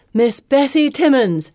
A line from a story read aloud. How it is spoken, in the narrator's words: Fee calls